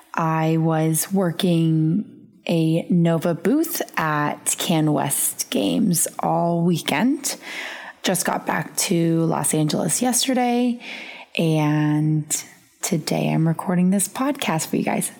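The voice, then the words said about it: Raspy voice. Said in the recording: “my beautifully raspy voice”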